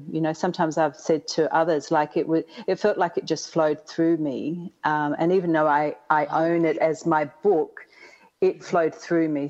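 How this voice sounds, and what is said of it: Slight Australian accent. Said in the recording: “you have a little accent ... I'm from the even further south called Australia”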